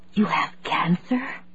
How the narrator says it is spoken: Claire whispered

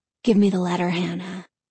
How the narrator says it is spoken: Danny said softly but insistently

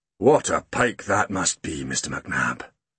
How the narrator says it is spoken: he said solemnly

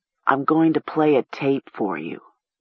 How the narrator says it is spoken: Seth told her solemnly

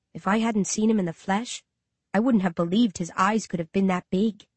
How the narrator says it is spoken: I whisper

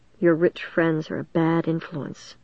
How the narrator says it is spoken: Mom said softly, wet tears brimming in her tired eyes

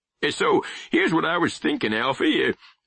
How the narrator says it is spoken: Pap said, his voice rising with his enthusiasm

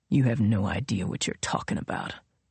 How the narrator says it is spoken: Royal said coldly

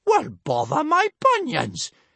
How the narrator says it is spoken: exclaimed Big Boobied Bertha

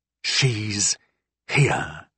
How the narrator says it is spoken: I said, not in a whisper, but quietly enough not to be overheard by the Swine Queen

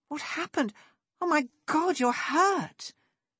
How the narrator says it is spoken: Lexi exclaimed, catching sight of a dark stain that was rapidly spreading across Sinley's shoulder

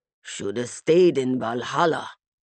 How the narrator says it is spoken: Bjorn grumbled

